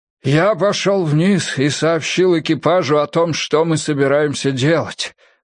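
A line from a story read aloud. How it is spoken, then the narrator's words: Breathless exhale. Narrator (Russian): выдохнул Монтгомери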